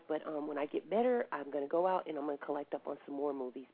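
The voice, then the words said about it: Congested, sick-sounding voice. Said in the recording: “I am sick right now ... I sound a little congested”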